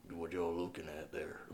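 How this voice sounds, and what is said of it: Slow, menacing Texas accent. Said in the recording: “He's got that, like, Texas accent ... it's a very slow, menacing tone of voice”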